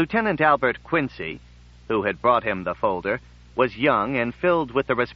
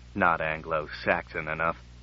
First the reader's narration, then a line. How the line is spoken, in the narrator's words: muttered Brand